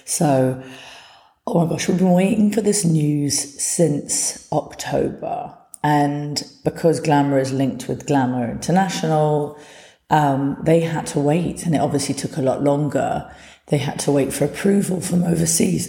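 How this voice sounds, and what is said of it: Hoarse, fading voice. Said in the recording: “Oh, excuse me, my voice is going.”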